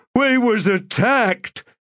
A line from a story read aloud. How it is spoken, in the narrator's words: Scorch shouted in outrage